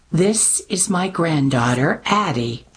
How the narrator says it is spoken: Mimi replied, lips pressed tightly to her teeth

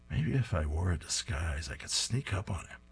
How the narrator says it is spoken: He's muttering to himself

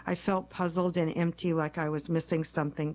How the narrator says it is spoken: Kessel says

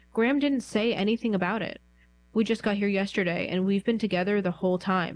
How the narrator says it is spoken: Mark said

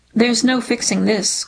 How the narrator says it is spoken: Carter says

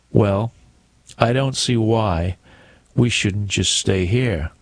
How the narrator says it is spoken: said Mrs

